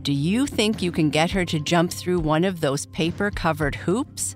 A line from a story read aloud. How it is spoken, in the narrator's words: asked Sally